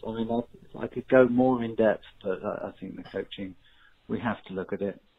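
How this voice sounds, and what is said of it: English accent, calm even delivery. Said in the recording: “people with the English accent ... he's not too high, he's not too low ... the sophistication of the English”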